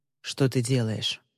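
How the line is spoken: Tired question. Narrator (Russian): усталым голосом спросил он

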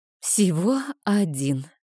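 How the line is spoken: Sigh. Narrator (Russian): вздохнула я

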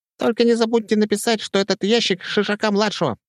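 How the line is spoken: Squeaky. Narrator (Russian): пропищал Петька Свисток

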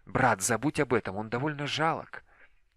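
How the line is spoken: Whispered. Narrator (Russian): прошептала

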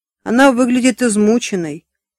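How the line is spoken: Snort. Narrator (Russian): хмыкнул Бадди

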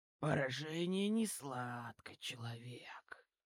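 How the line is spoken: Deep menacing growl. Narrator (Russian): прорычал он на основном, глубоким и грозным голосом

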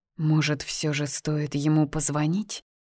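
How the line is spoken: Quiet but firm question. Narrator (Russian): Тихо, но твердо спросила

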